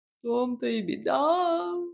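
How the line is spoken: Sorrowful sigh. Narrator (Russian): горестно вздохнул кот

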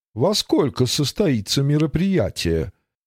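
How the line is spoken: Polite society tone. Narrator (Russian): светским голосом осведомилась

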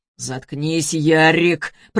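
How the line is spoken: Growling. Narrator (Russian): прорычал Антон

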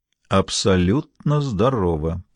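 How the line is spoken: Very quiet. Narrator (Russian): произнес Гамаш очень тихо

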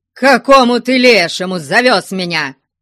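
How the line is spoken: Loud shouting. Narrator (Russian): кричал он на весь лес

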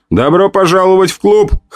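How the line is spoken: Laughing loudly. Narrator (Russian): хохотал

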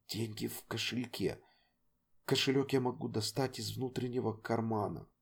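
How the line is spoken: Quiet. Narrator (Russian): тихо произнес

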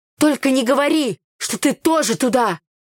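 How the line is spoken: Babbling timidly. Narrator (Russian): Пролепетала Таня

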